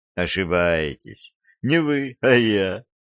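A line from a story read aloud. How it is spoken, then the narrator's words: Laughing. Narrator (Russian): рассмеялся Дюк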